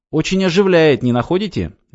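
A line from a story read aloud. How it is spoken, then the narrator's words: Cheerful question. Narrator (Russian): весело спросил Львович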